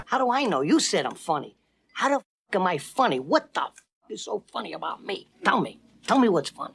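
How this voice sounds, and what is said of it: Imitates another person's voice, East Coast accent. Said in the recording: “Maybe I'm from Chicago. Maybe I'm from Boston. Maybe I'm from New York. It's hard to place my accent. ... It might be Joe Pesci.”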